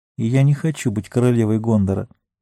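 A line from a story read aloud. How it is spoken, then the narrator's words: Quiet female addition. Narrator (Russian): Она тихо добавила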